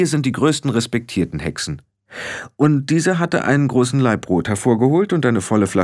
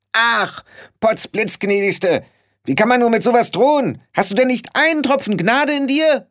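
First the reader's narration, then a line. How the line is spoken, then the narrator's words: Call. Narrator (German): rief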